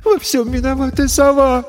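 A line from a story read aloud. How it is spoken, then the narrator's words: Sobbing. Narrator (Russian): всхлипнула Ресси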